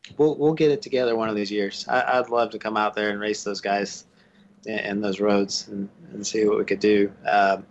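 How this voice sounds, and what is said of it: Southern American accent. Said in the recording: “you still ended up with a Southern accent”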